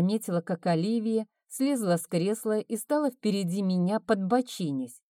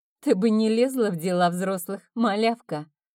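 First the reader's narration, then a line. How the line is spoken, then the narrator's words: Mocking. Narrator (Russian): насмешливо произнесла она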